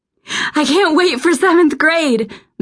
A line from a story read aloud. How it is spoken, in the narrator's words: Madison shrieked